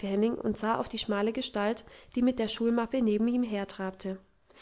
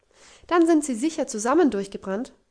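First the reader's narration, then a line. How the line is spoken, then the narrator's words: Excited girl calling. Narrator (German): rief das Mädchen erregt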